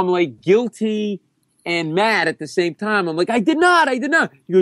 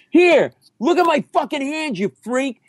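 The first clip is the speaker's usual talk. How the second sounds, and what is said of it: Screaming. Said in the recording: “I'm screaming”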